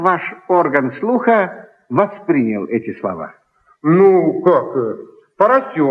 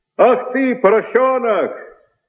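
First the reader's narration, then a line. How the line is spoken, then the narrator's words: Shouting. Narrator (Russian): дворник закричал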